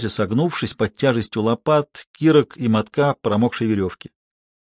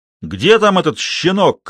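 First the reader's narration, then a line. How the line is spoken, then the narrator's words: Shout from back rows. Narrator (Russian): крикнул кто-то из задних рядов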